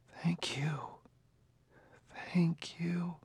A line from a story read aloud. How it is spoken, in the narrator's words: He seemed to hear her murmuring